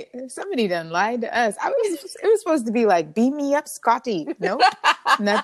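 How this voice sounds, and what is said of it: Sudden put-on accent. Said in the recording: “I don't know where that accent came from”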